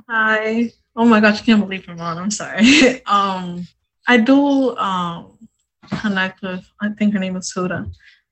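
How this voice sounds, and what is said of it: Teary, emotional voice. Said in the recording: “Sorry, I'm getting teary.”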